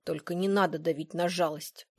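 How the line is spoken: Grumbling. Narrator (Russian): проворчал Патрик

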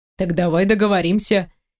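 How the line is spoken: Sly, smiling. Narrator (Russian): ехидно улыбаюсь

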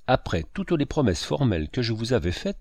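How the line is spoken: Plain. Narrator (French): dit-il

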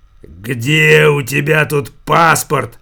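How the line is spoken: Hoarse rasp. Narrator (Russian): Прохрипел Верзила

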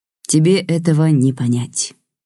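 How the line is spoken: Deep rich bass. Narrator (Russian): густым красивым басом сказала Лидия

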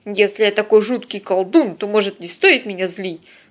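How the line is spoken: Snapping retort. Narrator (Russian): огрызнулся Тед

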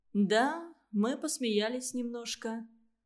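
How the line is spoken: Almost calm. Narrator (Russian): Она сказала это почти спокойно

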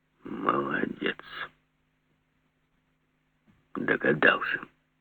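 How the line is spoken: Brief, low, crisp. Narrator (Russian): Жеглов сам разверз уста и сказал коротко, негромко, четко

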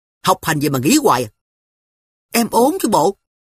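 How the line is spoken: Snapping irritably. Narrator (Vietnamese): Tôi lại gắt

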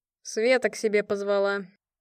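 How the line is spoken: Sighing. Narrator (Russian): вздохнул Дереда

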